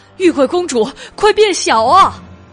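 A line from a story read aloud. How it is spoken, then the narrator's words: Loud shout. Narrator (Chinese): 大声的喊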